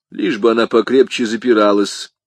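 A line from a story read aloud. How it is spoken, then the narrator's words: Indifferent tone. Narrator (Russian): произнес комиссар безразличным тоном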